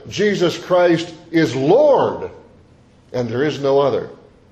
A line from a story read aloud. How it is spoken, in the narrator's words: a Christian stood up and shouted